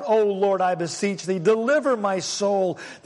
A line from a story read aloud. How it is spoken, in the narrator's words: So he cried out